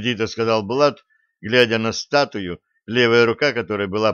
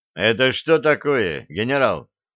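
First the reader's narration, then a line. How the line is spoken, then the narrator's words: Menacing demand. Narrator (Russian): грозно вопросил он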